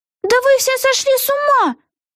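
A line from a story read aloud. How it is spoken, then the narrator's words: Exclaiming. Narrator (Russian): воскликнула Вега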